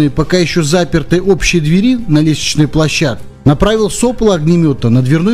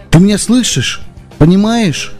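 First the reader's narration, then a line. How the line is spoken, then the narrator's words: Plain. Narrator (Russian): спросил я девочку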